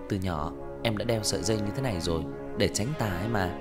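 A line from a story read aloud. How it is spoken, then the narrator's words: Soft laugh. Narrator (Vietnamese): Tần Cẩm khẽ cười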